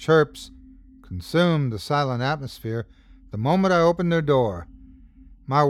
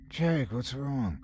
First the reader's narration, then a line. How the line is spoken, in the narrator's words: mumbled groggily